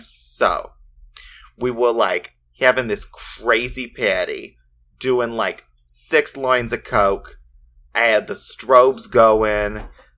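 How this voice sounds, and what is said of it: Put-on New Jersey accent. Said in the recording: “An English accent. ... She can have a New Jersey accent? I don't know what I was going for.”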